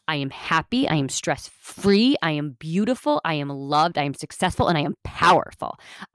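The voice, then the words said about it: Passionate, intensified delivery. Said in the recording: “Do you hear the difference in my tone of voice? ... when you talk with passion”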